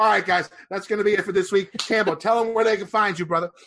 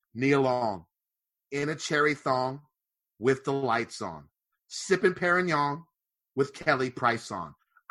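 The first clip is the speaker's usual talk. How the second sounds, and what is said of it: Poetry-reading voice. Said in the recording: “I'll do it in my poetry voice.”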